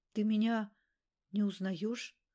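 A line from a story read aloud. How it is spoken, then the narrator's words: Trembling voice question. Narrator (Russian): дрогнувшим голосом спросил Губанок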